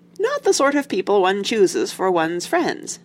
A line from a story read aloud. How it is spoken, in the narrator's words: said Dad cheerfully